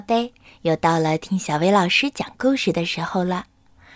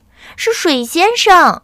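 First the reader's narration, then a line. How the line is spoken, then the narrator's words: Calling out. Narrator (Chinese): 阿果叫道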